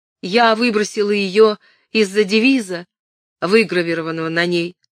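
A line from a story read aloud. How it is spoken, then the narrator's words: Plain. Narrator (Russian): сказала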